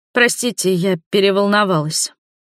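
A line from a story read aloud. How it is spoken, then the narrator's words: Hoarse breathless exhale. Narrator (Russian): выдохнула сиплым голосом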